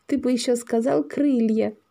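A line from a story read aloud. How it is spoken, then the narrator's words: Giggling. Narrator (Russian): хихикнула Маша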